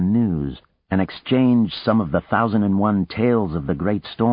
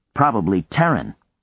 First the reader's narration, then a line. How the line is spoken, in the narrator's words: Vlad said